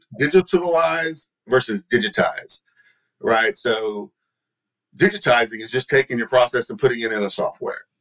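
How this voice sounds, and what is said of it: Texan accent. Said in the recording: “these words are very tough for me. It's my Texan accent”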